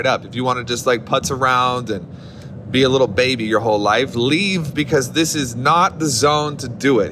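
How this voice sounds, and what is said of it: Loud, aggressive yelling. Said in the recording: “why are you so aggressive right now? ... why are you yelling?”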